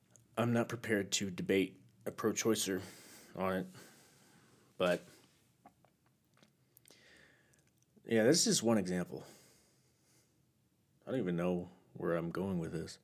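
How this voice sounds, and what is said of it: Tired, low-energy voice. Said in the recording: “I feel like my voice is a little unenergetic today, because I'm a little tired”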